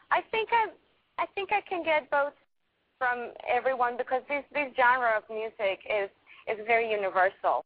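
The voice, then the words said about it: Hispanic accent. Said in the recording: “from the Hispanic population? You can hear your accent.”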